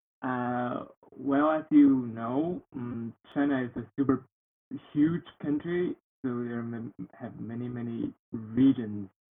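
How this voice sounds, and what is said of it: Chinese-accented English. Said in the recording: “I'm from China. uh, you can hear from my voice. Uh, it's uh, quite different from rap.”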